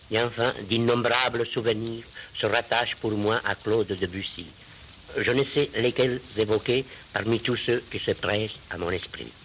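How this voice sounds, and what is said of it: Slight Spanish accent in French. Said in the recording (French): “j'ai gardé un petit accent de terroir espagnol dont je n'ai jamais pu me défaire”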